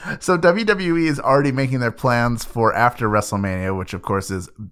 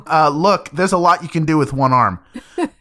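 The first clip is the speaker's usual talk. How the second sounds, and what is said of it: Imitates another person's voice. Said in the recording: “do a Danielle impression”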